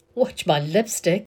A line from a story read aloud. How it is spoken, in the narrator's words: says, still laughing